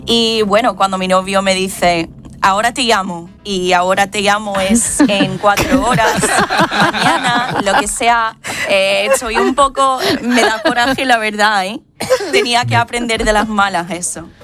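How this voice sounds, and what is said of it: Sevillian Spanish accent with American traces. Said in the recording (Spanish): “el acento que tiene es precioso ... Una mezcla entre ¿verdad? Entre sevillano y ahí americano de vez en cuando, que tiene ahí los dejes”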